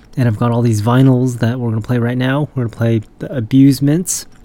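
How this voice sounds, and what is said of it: Voice sounds funny, allergy-affected. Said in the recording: “having like an allergy attack ... that's why I sound funny. Got my radio voice going.”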